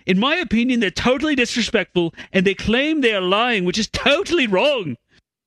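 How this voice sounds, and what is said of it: Put-on Irish or Scottish accent. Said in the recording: “that's an Irish accent. ... It wasn't even cartoon Scottish.”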